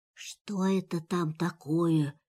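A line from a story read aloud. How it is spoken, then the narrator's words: Tiger's whisper. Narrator (Russian): шепнул тигр Пятачку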